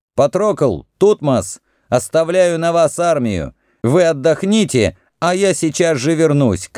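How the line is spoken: Heir shouting. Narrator (Russian): крикнул наследник

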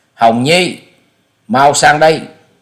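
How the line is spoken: Alarmed loud call. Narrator (Vietnamese): Sắc mặt của ông liền biến đổi, lớn tiếng gọi

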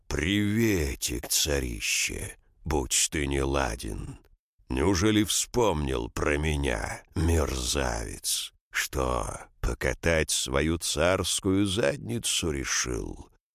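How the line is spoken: Growl. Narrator (Russian): Карос прорычал

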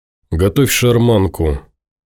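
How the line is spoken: Flat colorless voice. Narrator (Russian): бесцветным голосом сказал Тимур

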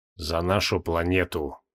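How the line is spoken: Quiet. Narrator (Russian): Изуродованный мутант негромко произнес

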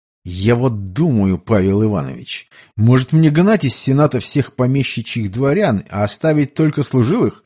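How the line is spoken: Through gritted teeth. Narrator (Russian): сквозь зубы процедил Петр

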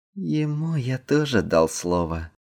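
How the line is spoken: Muffled, hollow. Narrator (Russian): глухо сказал Эндрю

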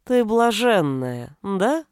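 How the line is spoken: Knowing drawl. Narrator (Russian): понимающе протянули головы

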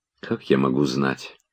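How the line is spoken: Quiet answer. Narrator (Russian): отвечала она тихо

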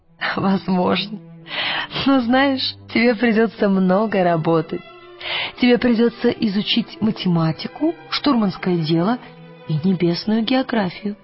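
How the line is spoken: Laughing. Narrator (Russian): Миссис Колтер засмеялась и сказала

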